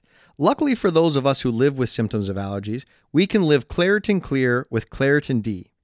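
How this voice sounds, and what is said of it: Congested, stuffed-up nasal voice. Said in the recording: “why does he sound that way? ... that's just your voice because you're so stuffed up ... the old allergy congested accent ... speak like this”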